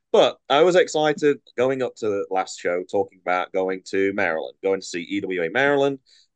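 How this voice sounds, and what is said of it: Nasal, congested voice. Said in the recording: “if I sound a little nasally, I feel like I got a really bad cold right now ... It does make me sound more English though”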